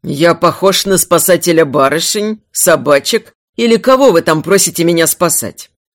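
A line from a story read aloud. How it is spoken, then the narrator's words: Gruff bear reply. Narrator (Russian): грубо ответил медведь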